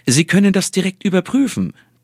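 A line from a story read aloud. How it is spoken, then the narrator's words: Triumphant cheerful giant. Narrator (German): triumphierte der Hühne, fröhlich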